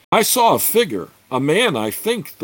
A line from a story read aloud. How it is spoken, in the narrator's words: the Flan warrior called out softly to the rest